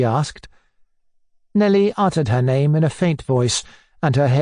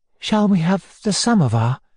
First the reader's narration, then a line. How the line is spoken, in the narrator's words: she asked timidly